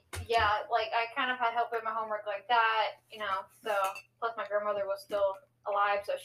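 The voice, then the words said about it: American accent. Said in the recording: “as you can tell by my accent, I am American”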